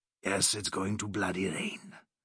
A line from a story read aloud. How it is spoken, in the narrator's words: grunted the Welshman